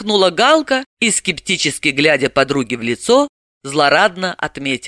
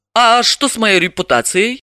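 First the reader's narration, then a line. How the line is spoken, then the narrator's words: Laughing. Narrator (Russian): рассмеялась Галина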